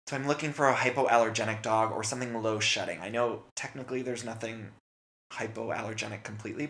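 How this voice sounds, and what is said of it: Scratchy, dry voice. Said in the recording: “bad allergies. You guys can probably hear in my voice. I'm always scratchy and dry.”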